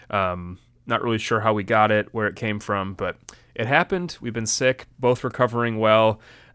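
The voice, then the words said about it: Slightly congested voice. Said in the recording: “I feel like I'm a little bit congested still, so if you hear that in my voice, that's what that is.”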